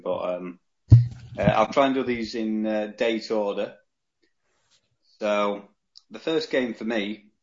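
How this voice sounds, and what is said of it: Deliberately posh English accent. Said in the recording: “I'll try and not revert into my Yorkshire accent. I'll try and keep speaking posh as I'm now doing”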